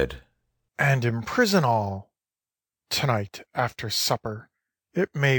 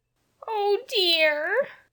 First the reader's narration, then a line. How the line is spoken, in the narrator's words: sobbed Jane